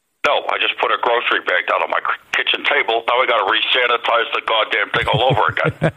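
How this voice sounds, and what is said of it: Imitates another person's voice. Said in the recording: “That's pretty good. That's a good impersonator.”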